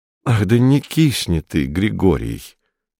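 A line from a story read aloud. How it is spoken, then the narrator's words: Suffering voice. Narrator (Russian): страдающим голосом сказал он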